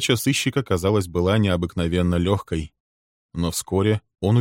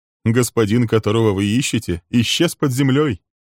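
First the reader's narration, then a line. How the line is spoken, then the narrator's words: Cheerful. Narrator (Russian): произнес Гаррис весело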